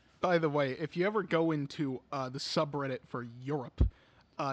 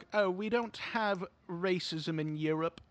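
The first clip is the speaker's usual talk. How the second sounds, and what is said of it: Put-on English accent. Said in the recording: “I like how you choose an English accent.”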